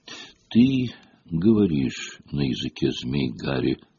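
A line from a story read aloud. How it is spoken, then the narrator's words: Calm reply. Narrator (Russian): ответил Дамблдор спокойно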